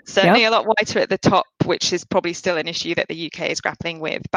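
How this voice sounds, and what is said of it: English accent. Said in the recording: “I'm a Brit ... I've got this accent, I carry it around ... my English accent”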